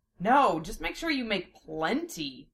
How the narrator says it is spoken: Lena grumbled

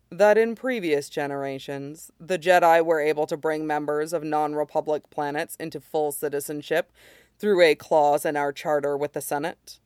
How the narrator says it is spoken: says quietly

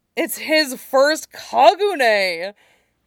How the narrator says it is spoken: Jiang Cheng squealed

